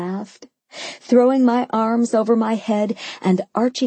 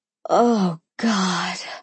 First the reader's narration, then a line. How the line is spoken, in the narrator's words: I moaned